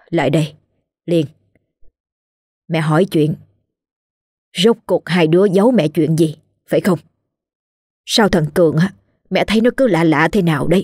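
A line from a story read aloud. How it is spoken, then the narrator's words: Sighing. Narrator (Vietnamese): Liên thở dài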